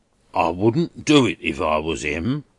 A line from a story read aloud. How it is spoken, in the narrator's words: growled Durdles